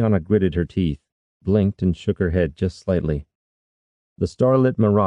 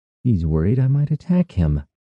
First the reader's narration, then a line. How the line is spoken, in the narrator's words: sighed, forcing a smile onto her face